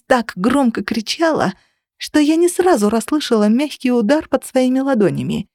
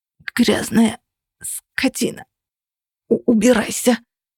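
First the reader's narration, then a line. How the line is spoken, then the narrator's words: Hoarse rasp. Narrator (Russian): прохрипела она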